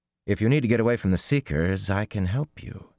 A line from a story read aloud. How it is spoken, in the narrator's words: he said quickly